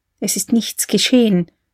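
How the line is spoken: Whispering. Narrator (German): flüsterte sie

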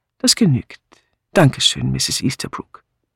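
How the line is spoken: Calm inspector. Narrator (German): der Inspektor sagte ruhig

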